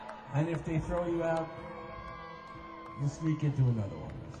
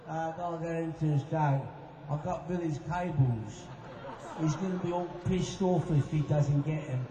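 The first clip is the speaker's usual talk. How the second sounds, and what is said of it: Put-on low-class English accent. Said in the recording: “you talk with a really low-class English accent”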